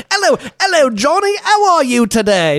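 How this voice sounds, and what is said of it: Put-on British accent. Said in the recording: “Very nice British accent”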